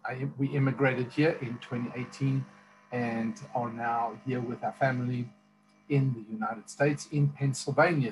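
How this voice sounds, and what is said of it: South African accent. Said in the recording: “I have an accent. It's South African accent.”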